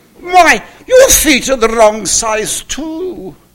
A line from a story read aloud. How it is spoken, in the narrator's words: exclaimed the goose